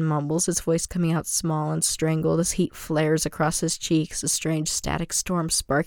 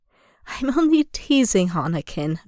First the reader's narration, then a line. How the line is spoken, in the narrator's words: Obi-Wan chuckles warmly